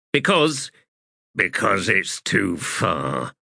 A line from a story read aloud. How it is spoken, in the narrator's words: Blistig growled